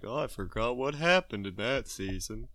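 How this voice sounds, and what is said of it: Silly put-on voice. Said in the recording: “that's not a dumb voice. That's just a silly voice”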